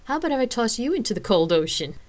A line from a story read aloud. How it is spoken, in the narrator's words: Rain asked with a laugh